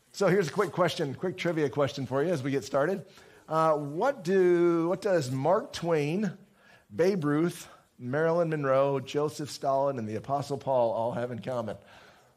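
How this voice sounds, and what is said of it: Hoarse, strained voice. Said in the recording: “I've been losing my voice.”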